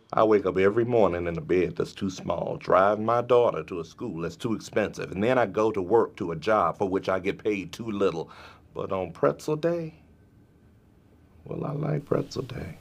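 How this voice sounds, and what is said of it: Smooth, velvety impression of Stanley. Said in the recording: “Everybody loves that smooth, velvety. ... I will be doing a lot of accents.”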